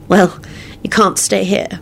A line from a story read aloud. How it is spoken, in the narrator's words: she said sadly